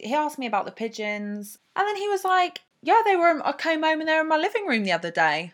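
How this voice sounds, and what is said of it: Usual voice. Nothing is said of it.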